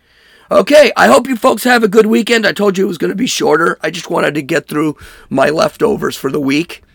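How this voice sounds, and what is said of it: Hoarse, strained voice. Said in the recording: “You can hear my voice is just torn apart.”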